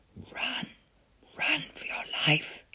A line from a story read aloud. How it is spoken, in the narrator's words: she whispered